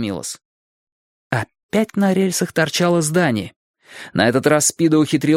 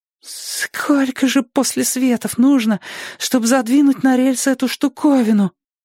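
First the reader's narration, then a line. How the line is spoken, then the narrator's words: Babbling. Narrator (Russian): пролепетал он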